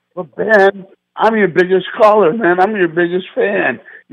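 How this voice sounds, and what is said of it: Yelling into the phone. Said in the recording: “It's bad enough I'm yelling while I'm talking to you anyways because of my phone.”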